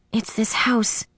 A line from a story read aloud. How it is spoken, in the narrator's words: I whispered